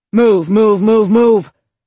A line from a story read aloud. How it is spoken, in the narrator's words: Herbert barked out from across the compound